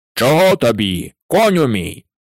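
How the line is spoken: Shout. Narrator (Ukrainian): закричав змій

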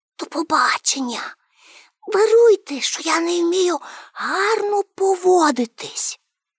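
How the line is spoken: Whisper. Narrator (Ukrainian): пошепки сказала

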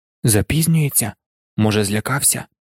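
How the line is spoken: Whispered. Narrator (Ukrainian): прошепотів Рон

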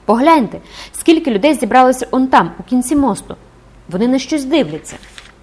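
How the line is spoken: Sudden exclamation. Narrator (Ukrainian): Маєта раптом вигукнув

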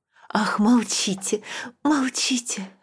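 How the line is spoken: Whisper. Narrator (Russian): шептала она

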